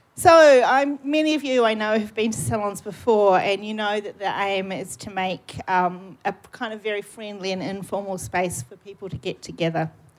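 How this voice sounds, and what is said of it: New Zealand accent. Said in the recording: “I keep hearing my New Zealand accent through this microphone. it's very odd.”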